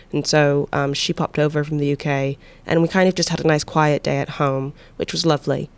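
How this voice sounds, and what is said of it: Slips into a British accent. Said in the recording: “your whole accent changed to UK”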